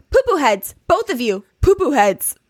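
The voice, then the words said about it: Imitates another person's accented voice. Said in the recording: “And the accent makes it so.”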